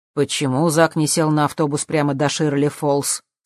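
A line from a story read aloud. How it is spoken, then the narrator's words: Plain. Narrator (Russian): спросил Джим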